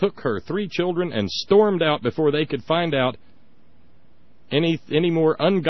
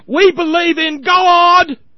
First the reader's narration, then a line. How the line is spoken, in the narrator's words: one woman screamed at Bill Nye the Science Guy